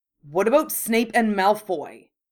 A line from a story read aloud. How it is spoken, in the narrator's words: Ron burst out angrily